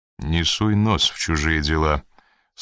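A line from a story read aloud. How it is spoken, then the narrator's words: Dry. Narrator (Russian): сухо проговорил Коридон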